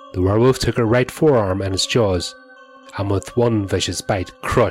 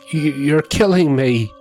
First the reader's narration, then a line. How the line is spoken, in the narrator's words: choked out in between sobs